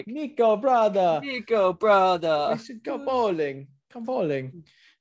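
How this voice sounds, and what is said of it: Poor attempt at European accent. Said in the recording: “can't do that European accent”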